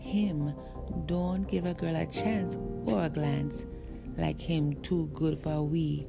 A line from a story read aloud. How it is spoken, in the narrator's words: she said